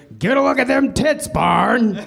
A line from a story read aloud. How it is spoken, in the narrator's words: Fred Flintstone bellowed